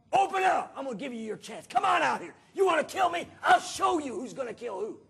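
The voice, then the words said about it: Yelling. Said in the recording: “I'm yelling”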